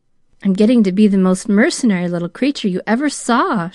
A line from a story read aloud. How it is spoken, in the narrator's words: she laughed dolefully